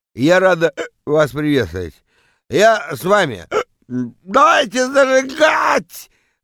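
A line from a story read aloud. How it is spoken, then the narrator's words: Yelling into microphone. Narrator (Russian): Вопит она в микрофон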